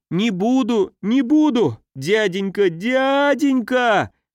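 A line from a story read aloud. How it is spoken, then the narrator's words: Squealing. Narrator (Russian): визжал кавалер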